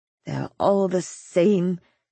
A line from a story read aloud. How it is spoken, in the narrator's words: she muttered